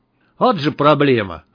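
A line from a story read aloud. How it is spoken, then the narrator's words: Snorting. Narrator (Russian): хмыкнул Малахов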